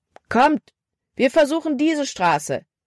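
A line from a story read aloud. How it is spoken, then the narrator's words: Called out. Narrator (German): rief Caleb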